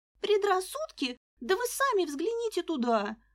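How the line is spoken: Girl's babble. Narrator (Russian): пролепетала девушка

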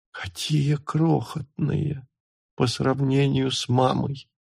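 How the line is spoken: Whisper. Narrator (Russian): прошептала она

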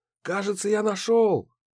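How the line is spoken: Excited shout. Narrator (Russian): крикнул Гидеон

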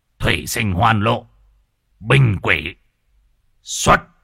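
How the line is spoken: Muttered incantation, then shout. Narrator (Vietnamese): Lão tam lẩm bẩm đọc chú rồi quát

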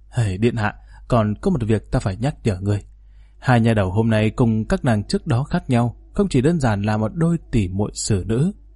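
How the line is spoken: Mysterious smiling tone. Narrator (Vietnamese): Phúc lão bản mỉm cười thần bí nói

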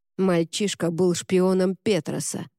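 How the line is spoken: Grumbling. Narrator (Russian): проворчал

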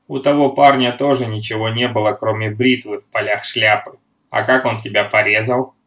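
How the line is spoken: Grumbled. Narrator (Russian): проворчал Рене

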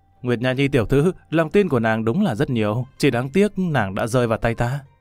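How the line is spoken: Laughing loudly. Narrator (Vietnamese): Lâm Văn Vinh cười lớn

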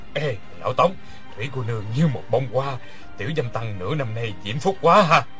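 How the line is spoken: Low laughing voice. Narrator (Vietnamese): Người kia hạ giọng cười nói

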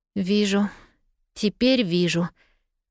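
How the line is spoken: Breathed out. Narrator (Russian): выдохнула Полианна

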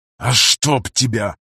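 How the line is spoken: Pained hiss. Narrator (Russian): прошипел пограничник, чувствительно приложившись к забытому Алу Дабом креслу

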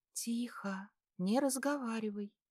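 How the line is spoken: Whisper. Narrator (Russian): прошептала она

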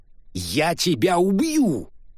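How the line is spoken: Furious roar. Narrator (Russian): проревел Челленджер

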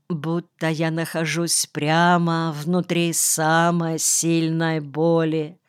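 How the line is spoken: Moaning. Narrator (Russian): простонал Нельсон

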